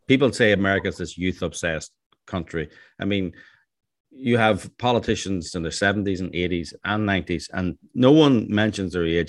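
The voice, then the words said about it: Non-local foreign accent. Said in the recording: “as you probably hear from my accent, I'm not from around these parts.”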